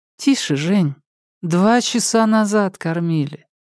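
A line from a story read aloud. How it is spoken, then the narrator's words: Tired. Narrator (Russian): устало сказала Алька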